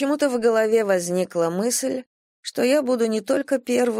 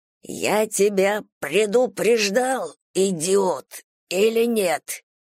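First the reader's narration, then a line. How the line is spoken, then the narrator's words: Old man hissing. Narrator (Russian): прошипел старик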